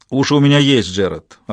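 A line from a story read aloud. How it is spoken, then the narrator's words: Snapping commander. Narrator (Russian): огрызнулся его командир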